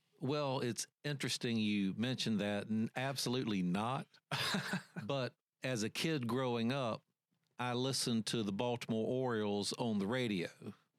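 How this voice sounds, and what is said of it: Radio voice. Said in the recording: “he's already got the voice... You kind of have that radio voice already”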